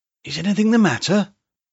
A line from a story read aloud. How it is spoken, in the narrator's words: she asked breathlessly